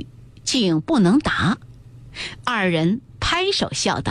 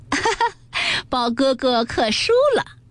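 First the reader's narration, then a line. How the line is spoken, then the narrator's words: Clapping and laughing. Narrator (Chinese): 湘云也拍手笑道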